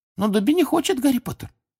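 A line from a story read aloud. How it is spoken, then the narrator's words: Squeaking. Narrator (Russian): Снова запищал он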